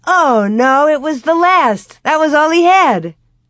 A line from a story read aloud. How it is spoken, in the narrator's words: exclaimed